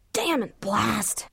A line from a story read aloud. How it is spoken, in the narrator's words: she croaked, mostly just to hear the sound of her own voice